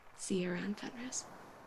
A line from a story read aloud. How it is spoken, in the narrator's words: says quietly